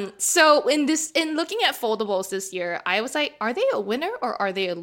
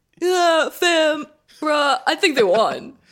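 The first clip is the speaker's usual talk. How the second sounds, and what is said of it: Bad impression of a coworker. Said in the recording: “let me do a better V impression. ... That was a bad impression.”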